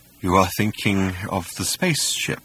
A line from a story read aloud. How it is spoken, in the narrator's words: he sighed